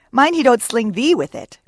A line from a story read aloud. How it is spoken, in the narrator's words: cried Starbuck